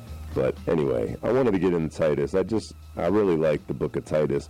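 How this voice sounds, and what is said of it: Slightly rusty voice. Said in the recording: “I'm not sure if you can tell in my voice. It's a little rusty. ... got like some sort of cold flu”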